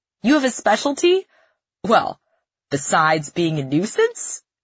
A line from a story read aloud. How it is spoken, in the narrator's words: He laughs